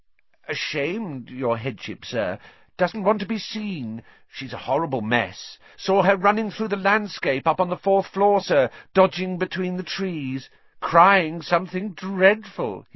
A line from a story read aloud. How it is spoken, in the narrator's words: he said happily